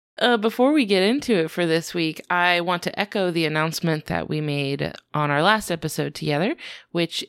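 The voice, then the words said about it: Slightly weird voice from a cold. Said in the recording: “I have a little bit of a cold, so I'm sorry if my voice sounds a little weird.”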